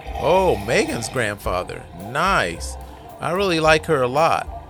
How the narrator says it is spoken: Jonathan blurts out

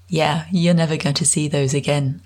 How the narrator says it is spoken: Anne laughed

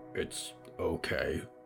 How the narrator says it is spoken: Mort grumbled

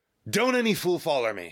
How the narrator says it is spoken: he barked in pain

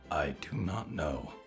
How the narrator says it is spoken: growled beneath her breath

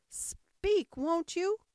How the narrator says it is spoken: cried the king

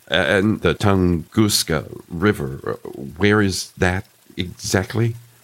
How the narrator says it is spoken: Choking back a gasp, I said

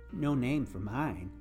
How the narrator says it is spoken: Barney giggled and said

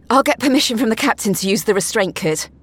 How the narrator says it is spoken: Pippa said breathlessly

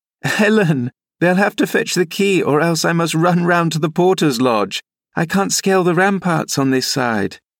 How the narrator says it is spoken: laughing and exclaiming

